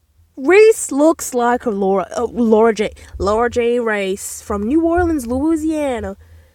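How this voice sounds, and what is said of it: Poor put-on Southern US accent. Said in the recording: “I did a bit of a terrible Southern accent right there.”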